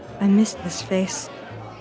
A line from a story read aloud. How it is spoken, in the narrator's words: Vera whispered